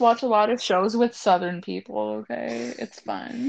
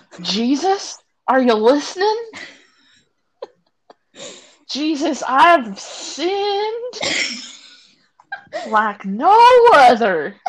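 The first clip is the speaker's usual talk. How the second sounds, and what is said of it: Convincing put-on Southern US accent. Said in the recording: “you have that like Southern accent down amazingly”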